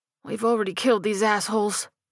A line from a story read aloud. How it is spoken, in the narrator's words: Ricky grunted